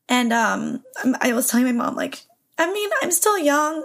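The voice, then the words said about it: Emotional, tearful voice. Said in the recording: “I'm getting emotional right now.”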